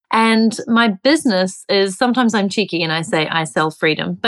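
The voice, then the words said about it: New Zealand accent. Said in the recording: “I'm originally from New Zealand, so that's the accent.”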